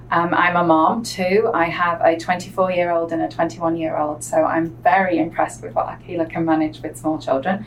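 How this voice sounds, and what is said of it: Northwest English accent. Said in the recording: “I'm originally a native of the northwest of England, halfway between Manchester and Liverpool... my accent is what most people hear and see first”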